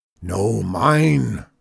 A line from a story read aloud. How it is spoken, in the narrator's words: roared Zeke